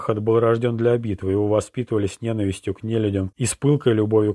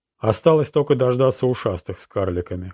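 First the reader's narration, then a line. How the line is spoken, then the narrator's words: Old man's short laugh. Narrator (Russian): хохотнул старик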